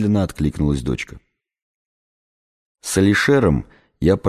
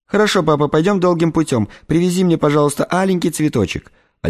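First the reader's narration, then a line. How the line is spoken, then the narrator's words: High spoiled-girl voice. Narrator (Russian): Семеном, тот тонким голосом балованной девочки произнес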